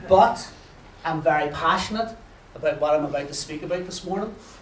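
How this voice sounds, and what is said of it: Northern Irish accent. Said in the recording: “a local show in Northern Ireland ... my accent isn't that bad”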